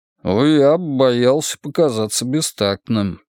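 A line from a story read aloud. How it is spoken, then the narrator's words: Mumbling wolf. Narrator (Russian): промямлил волк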